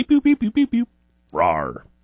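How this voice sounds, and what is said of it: Imitated robot beeps and roar. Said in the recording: “I'm impressed by how accurate your impression there was.”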